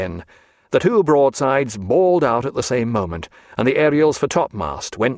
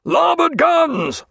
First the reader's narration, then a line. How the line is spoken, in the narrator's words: roared Jack